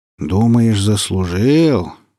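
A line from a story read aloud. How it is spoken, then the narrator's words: Doubtful drawl. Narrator (Russian): с сомнением протянул Ильин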